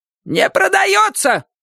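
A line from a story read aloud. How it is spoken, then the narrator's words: Sudden shout. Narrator (Russian): вдруг закричала она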